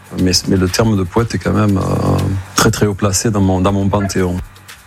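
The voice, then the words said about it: Soft, almost whispered voice with accent. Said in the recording (French): “c'est une voix qui n'est pas très affirmée, c'est pas une voix qui porte très haut comme ça, une voix presque murmurée, presque chuchotée ... il y a un accent”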